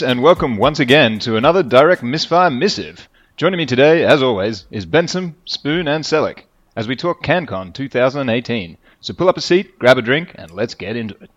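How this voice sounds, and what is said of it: Game show host presenter voice. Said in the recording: “You sounded like a game show host.”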